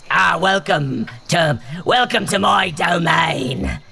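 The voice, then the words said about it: Wildly inconsistent echoing accent. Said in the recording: “the wildly inconsistent accent echoes off of all of this stuff”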